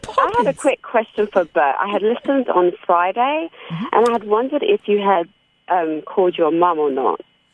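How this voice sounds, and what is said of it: British accent. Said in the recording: “Oh, you really have a British accent.”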